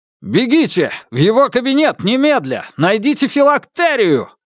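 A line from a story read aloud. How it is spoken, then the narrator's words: Barking command. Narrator (Russian): рявкнул Корсаков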